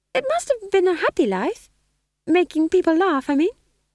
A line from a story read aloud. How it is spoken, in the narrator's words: said McGrath, her voice higher than usual with a vibrato of uncertainty